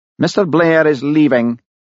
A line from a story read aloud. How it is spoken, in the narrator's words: he said icily